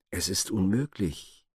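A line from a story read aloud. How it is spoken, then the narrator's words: Hesitant reply. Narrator (German): erwiderte zögernd der Bruder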